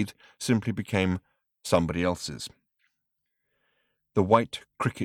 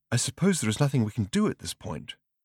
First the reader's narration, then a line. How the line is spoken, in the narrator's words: asked Arthur nervously